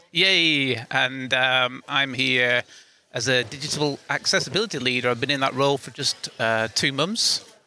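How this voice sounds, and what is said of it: British accent. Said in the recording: “I'm from the UK, as you can probably tell with my accent”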